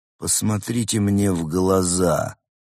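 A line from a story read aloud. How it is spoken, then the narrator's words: Eerie commanding voice. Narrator (Russian): жутким голосом велел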